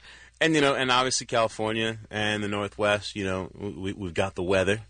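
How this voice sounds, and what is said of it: Usual voice. Nothing is said of it.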